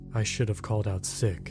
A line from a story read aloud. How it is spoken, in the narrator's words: he muttered